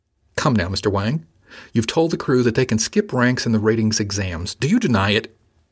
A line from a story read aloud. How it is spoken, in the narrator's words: he asked sharply